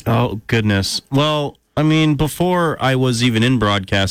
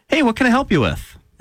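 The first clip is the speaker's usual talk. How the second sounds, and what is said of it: Friendly customer service voice. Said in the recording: “my customer service voice.”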